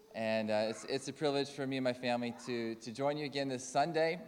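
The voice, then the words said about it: Slight Canadian accent. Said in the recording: “As you can tell from my accent, I'm from Calder Crooks, but originally from Canada. There's still a bit of Canadian in there.”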